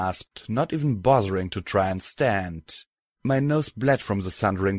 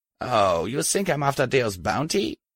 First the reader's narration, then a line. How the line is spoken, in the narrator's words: She asked with a sneer